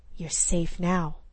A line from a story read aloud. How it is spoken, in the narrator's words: he whispered harshly